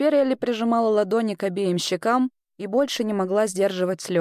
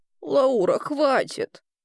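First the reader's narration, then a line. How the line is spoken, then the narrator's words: Trembling request, grandmother. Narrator (Russian): дрожащим голосом попросила бабушка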